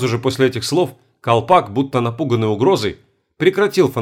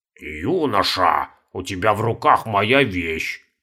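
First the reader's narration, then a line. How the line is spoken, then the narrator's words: Creaky voice. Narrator (Russian): проскрипел Каспар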